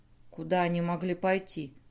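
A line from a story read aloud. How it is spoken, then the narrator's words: Muttered. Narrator (Russian): пробормотал Сик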